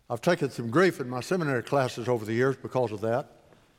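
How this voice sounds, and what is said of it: Heavy West Texas accent. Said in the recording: “I also have a very heavy West Texas accent. ... they said I spoke Spanish with a Texas accent.”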